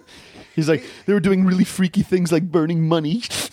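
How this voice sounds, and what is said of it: Imitates another person's voice. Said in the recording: “I started doing a Woody Allen voice.”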